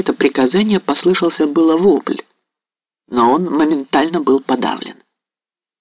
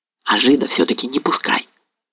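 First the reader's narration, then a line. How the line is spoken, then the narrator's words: Whispered command. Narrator (Russian): распорядился шепотом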